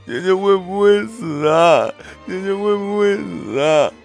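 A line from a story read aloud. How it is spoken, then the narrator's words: Crying question. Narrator (Chinese): 夏康……哭着问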